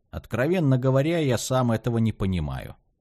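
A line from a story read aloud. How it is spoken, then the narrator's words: Plain. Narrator (Russian): ответил Асторе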